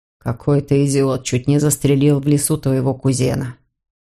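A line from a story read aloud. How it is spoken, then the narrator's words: Cold. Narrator (Russian): холодно произнес Леон де Вальми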